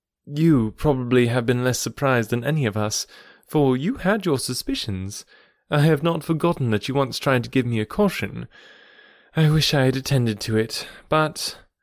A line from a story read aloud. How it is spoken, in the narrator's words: with a sinking voice and a heavy sigh